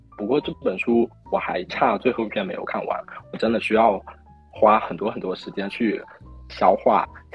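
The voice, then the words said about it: Cute Fujian-accented Mandarin. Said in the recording (Chinese): “你是哪里的人？口音好可爱 ... 我是福建的 ... 你跟我福建室友一模一样 ... 他们讲话真的好可爱 ... 我我以为是广东的”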